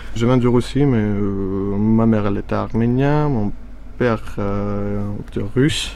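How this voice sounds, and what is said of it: Slight mixed Russian-Armenian accent. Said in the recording (French): “Tu as un petit accent ? ... cet accent, je peux dire carrément que c'est un mélange de 3 langues en même temps. Anglais, russe, arménien, tout ça en même temps.”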